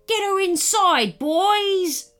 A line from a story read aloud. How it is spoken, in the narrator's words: boomed the white pirate